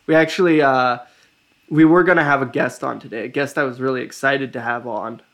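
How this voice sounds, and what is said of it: Voice sounds rough and unwell. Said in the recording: “My voice sounds still pretty bad”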